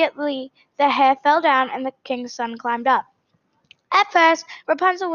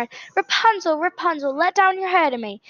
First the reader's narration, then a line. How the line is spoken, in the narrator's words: he went to the tower and cried